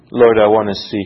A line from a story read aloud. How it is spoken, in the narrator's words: he replied